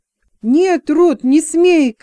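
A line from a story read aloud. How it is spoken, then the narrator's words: Shouting. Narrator (Russian): крикнул Джексон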